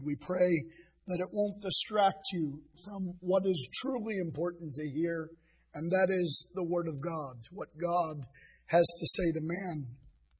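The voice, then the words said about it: Hoarse, rough voice. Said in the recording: “As you can hear, I'm still laboring under laryngitis ... you'll have to contend with a little roughness”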